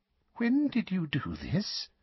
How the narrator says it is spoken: she asked, her voice trembling slightly

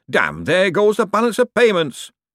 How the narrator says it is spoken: a faint, muffled voice shouted

